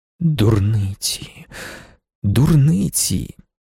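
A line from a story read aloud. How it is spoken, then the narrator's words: Whisper. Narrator (Ukrainian): шепотів він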